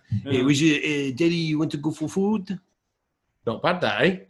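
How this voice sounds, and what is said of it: Awkward put-on French accent. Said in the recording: “In like a awkward Joey Barton style French accent.”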